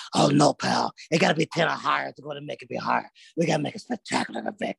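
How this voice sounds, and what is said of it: Vince McMahon impression. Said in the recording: “I love your impression. It's like a mix of Vince McMahon and”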